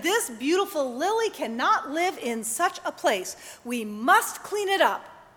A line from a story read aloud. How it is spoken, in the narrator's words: Ivan exclaimed